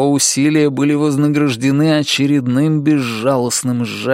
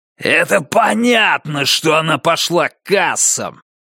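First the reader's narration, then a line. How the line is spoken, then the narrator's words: Angry bark. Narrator (Russian): рявкнул Дэниелс ему в лицо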